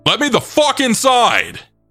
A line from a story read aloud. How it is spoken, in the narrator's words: while yelling